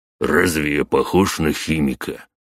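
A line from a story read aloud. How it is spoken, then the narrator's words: Snort. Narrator (Russian): хмыкнул кентавр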